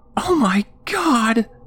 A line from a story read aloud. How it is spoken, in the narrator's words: Joan shrieked